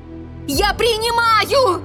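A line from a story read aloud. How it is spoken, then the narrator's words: Shout. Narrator (Russian): Прокричала вслух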